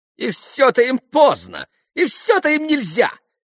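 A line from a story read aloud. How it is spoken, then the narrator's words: Vexed near-shriek. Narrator (Russian): почти взвизгнула в досаде Грушенька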